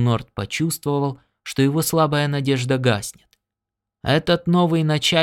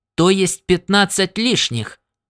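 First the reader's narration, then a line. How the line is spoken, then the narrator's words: Rude official's reply. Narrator (Russian): грубо ответил чиновник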